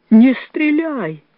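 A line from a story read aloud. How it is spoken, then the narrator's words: Pleading. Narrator (Russian): взмолился он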